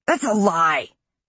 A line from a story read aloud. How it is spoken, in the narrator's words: he shrieked